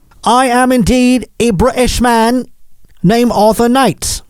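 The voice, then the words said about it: Put-on British accent. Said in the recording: “fake accent.”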